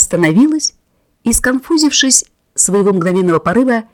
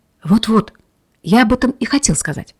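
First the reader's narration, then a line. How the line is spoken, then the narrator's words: Hurried whisper. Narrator (Russian): торопливым шепотом заговорил он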